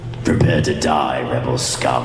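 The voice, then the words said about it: Boba Fett character voice. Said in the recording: “the Boba Fett in the Star Tours ride”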